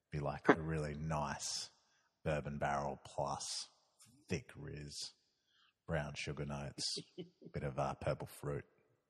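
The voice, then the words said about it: Smooth late-night radio voice. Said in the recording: “the late night radio voice that you have”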